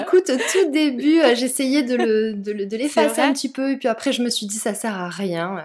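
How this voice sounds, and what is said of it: Light singsong regional French accent. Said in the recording (French): “tu as un petit accent chantant”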